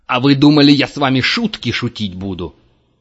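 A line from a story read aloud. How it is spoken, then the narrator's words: Yelled. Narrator (Russian): заорал он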